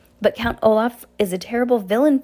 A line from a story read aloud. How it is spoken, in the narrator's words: Fiona cried